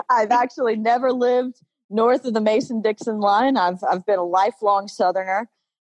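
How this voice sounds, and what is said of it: Southern US accent. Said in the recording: “I grew up deep in the southern state of Alabama. You can detect my accent.”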